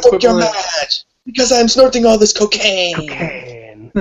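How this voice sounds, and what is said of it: Poor imitation of another person's voice. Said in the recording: “in the Dario Cueto voice... my very poor impression of Matt McCarthy's impression of Dario Cueto”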